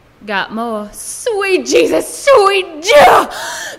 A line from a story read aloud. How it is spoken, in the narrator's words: The prayer ended in an ear-splitting squeal